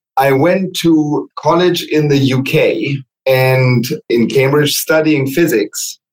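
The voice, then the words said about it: German accent. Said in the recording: “as you might guess from my name and accent, I was born and raised in Germany”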